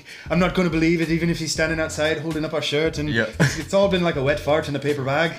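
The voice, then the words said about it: Poor imitation of Newcastle accent. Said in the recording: “that was probably a really terrible Newcastle accent, but I tried”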